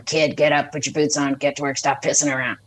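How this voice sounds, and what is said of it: Gruff old man voice. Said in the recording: “old man voice ... that Clint Eastwood type”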